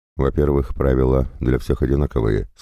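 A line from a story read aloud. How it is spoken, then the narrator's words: Plain. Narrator (Russian): сказал он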